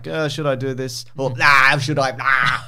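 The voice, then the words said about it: Imitates another person's voice. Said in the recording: “my Arnold impersonation.”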